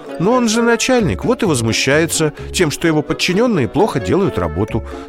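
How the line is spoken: Calm answer. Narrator (Russian): спокойно ответила мама

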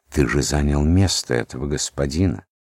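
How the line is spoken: Whisper, wife. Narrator (Russian): Жена шепнула ему

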